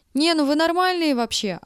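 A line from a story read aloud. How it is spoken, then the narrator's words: Girl yelling. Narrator (Russian): орала девушка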